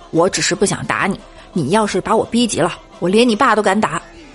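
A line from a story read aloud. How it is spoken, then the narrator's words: Angry, mid-quarrel. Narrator (Chinese): 李大脚跟一朋友吵架，吵得不可开交，他怒道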